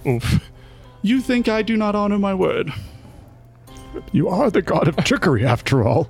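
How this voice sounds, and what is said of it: Imitates another character's voice. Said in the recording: “drop the act. We all know you're doing your best Horace impression.”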